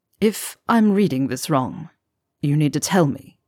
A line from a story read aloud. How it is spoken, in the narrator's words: Severus murmured